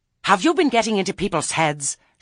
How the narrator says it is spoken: she shrieked

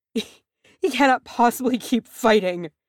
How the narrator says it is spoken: Frerin sobbed

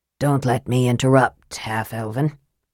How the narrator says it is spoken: Raistlin said, coughing softly

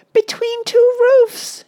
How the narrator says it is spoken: she yelped

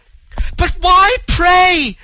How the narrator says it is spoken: screamed the girl, distracted, frantic with her bewildered terror

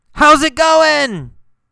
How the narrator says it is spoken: he yelled

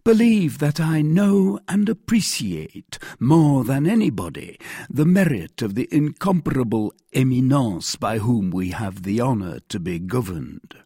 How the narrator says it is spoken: said he calmly

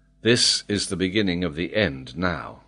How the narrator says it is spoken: Even the major said in a calm voice

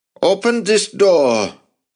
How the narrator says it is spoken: someone shouted from outside

